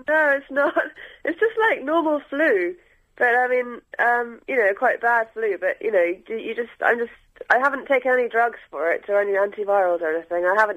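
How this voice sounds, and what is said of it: Congested, bunged-up voice. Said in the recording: “I've got a slightly funny voice because I've kind of bunged up”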